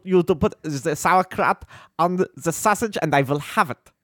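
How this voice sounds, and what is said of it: Put-on comic German accent. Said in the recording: “This is more of my, like, sort of a fat friend of Hitler who's there ... Whereas I was more of, like, the gruff German guy in that.”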